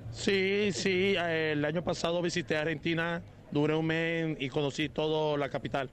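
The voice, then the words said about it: Colombian Spanish accent. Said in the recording (Spanish): “¿Y por qué esa tonada? ¿De dónde es usted? ... Yo soy colombiano.”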